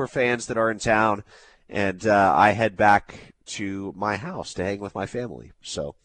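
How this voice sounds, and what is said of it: Strained, failing voice. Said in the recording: “when you've got a voice that you're like, man, I could lose this at any minute ... The voice, I'd still say it's a good 7 out of 10”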